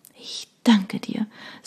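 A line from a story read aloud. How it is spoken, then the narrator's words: Quiet speech. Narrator (German): sagte leise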